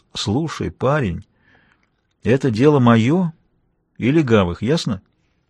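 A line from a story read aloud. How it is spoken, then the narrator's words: Calm. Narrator (Russian): он спокойно произнес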